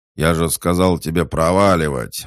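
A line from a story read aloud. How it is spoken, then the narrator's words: Yelling. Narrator (Russian): заорал он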